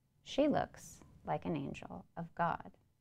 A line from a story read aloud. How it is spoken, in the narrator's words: Shiflett is doing, he murmurs quietly